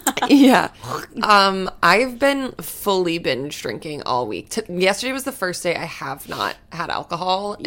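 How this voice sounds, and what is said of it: Raspy, worn-out voice. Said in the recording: “my voice, I don't even have one ... my voice is, like, raspy.”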